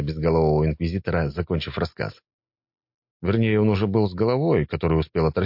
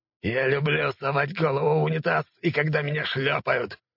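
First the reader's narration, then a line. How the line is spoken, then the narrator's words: Growled retort. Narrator (Russian): прорычал в ответ инквизитор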